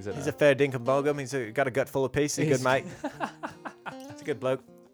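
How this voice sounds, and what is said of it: Put-on Australian accent. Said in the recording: “It was already your strongest accent.”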